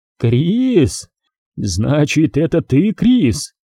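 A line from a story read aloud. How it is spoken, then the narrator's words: Hysterical laughter. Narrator (Russian): Ирвин истерически засмеялся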